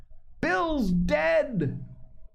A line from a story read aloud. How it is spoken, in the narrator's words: a voice shouting from the house